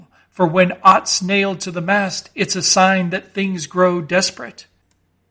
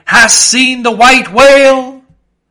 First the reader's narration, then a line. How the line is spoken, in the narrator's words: So cried Ahab, once more hailing a ship